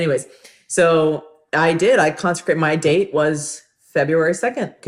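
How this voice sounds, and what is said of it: Usual voice. Nothing is said of it.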